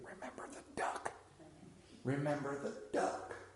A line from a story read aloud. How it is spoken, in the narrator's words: she whispered in his ear